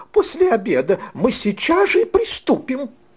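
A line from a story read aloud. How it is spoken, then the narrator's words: Joyful, gracious king. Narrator (Russian): радостно и любезно прибавил король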